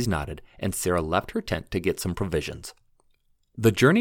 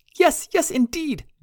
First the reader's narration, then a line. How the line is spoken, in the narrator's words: John said while laughing